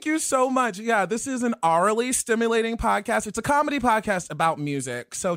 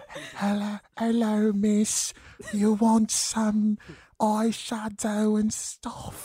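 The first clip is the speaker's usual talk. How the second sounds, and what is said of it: Put-on Cockney-American mixed accent. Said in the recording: “Artful Dodger ... It's like Adele's cousin ... who kind of grew up in Chicago ... That's what the accent I was giving ... I love your dialect work.”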